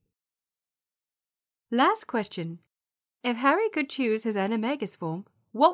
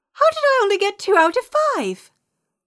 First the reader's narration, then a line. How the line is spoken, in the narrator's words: Ginny shrieked